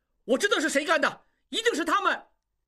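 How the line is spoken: Shouting while stuck in crowd. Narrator (Chinese): 挤不过去喊道

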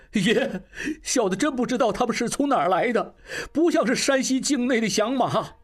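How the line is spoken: Crying. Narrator (Chinese): 金宝哭道

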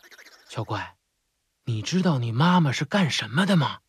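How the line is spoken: Quiet whisper. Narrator (Chinese): 奇大怪对奇小怪小声说

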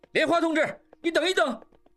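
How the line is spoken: Shouting. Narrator (Chinese): 一边喊着

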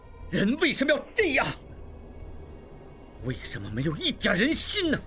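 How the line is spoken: Furious shout. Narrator (Chinese): 应济心中大怒不已，叫道

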